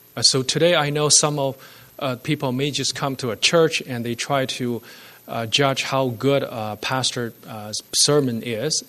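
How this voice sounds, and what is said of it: Speaks with a noticeable accent. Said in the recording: “the accent of the pastor ... I will do my best to speak without an accent”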